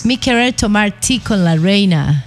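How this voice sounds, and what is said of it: Put-on English accent speaking Spanish. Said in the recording (Spanish): “Pero no es necesario hablar en inglés, total, sino con acento... acento... típico. ... Inglés.”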